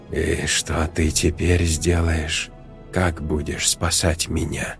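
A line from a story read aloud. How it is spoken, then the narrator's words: Hoarse mocking teenager. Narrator (Russian): В хриплом голосе подростка послышались насмешливые нотки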